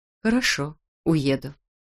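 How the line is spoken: Calm. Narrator (Russian): спокойно сказала она

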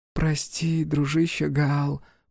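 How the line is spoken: Whisper. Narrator (Russian): прошептала

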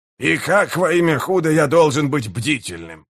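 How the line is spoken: Barking snap. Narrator (Russian): рявкнул Гиборик

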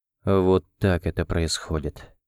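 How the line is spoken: Quiet. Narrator (Russian): произнес он тихо

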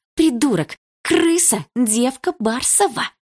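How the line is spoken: Hiss into phone. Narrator (Russian): прошипела Лика в телефон

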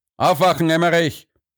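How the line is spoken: Called out. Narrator (German): rief er

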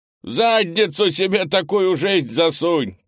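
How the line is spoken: Distant shout from behind fence. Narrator (Russian): крикнул кто-то из-за частокола

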